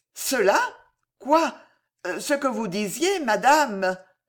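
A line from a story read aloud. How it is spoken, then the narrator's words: Stammering. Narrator (French): balbutia Alice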